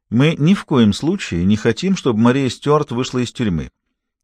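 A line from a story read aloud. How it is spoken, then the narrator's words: Calm, smooth. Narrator (Russian): спокойно и плавно заговорил Фаулер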